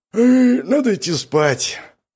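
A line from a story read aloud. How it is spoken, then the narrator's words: Tired yawning. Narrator (Russian): Павел устало зевнул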